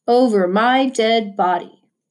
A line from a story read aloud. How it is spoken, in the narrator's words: Prosper grumbled